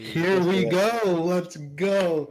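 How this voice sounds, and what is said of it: Loud screaming into the mic. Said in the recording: “Why are you screaming ... you're still peaking terribly ... You're screaming into your mic.”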